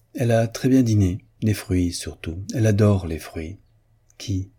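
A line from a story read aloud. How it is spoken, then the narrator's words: Friendly, confiding tone. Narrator (French): Raoul lui dit, d'un ton de confiance amicale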